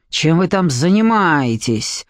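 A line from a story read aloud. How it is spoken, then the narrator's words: Hissed. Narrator (Russian): прошипел шеф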